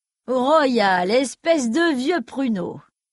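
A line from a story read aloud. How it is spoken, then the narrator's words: Thundering voice. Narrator (French): tonna une voix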